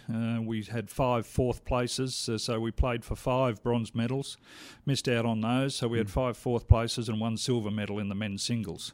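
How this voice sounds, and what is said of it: Australian accent. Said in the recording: “your accent doesn't sound like you're from Red Deer ... I'm Australian”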